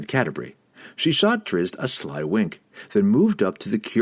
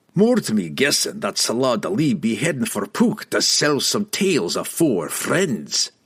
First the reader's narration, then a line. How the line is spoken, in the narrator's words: Brunner growled